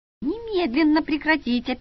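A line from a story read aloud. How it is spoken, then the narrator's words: Squeak. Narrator (Russian): пискнула я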